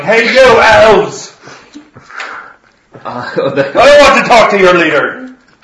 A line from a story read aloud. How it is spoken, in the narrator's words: He starts yelling